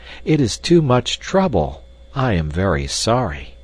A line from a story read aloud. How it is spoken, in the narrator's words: cried Hans earnestly